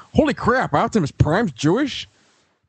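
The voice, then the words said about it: Imitates a cartoon character's voice. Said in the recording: “not a bad Peter impression”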